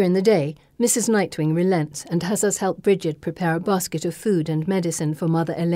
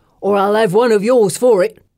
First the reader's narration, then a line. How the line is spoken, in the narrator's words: Miller grumbles to Ital